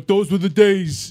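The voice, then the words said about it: Put-on New York accent. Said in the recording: “I don't even know if my New York accent's any good”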